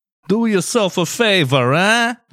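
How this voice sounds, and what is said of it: Put-on accent. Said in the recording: “I don't know why I went with that accent.”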